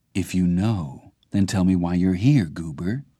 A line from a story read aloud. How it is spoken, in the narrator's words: Archie said now, his voice gentle